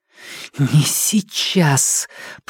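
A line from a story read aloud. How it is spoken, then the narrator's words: Hissing. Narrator (Russian): прошипела Нелит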